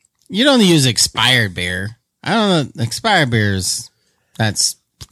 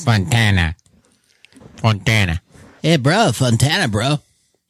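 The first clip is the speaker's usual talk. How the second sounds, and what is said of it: Put-on L.A. accent. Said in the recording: “You got to say it in the L.A. accent.”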